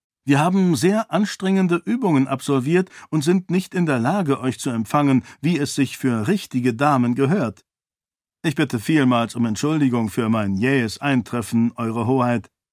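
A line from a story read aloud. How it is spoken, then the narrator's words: Plain. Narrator (German): sagte Kalo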